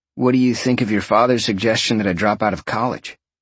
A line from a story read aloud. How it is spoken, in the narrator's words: Roxy sighed